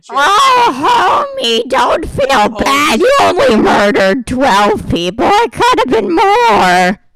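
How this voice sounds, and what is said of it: Demonic cartoon mom impression. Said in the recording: “very demonic Marge impression”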